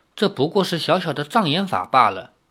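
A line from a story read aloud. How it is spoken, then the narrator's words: Calm, indifferent woman. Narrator (Chinese): 那白衣女子淡淡的说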